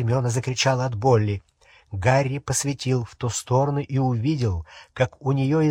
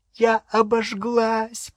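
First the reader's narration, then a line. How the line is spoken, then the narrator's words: Moaning. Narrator (Russian): простонала Гермиона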